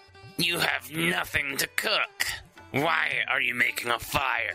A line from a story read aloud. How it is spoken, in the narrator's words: the troll snarled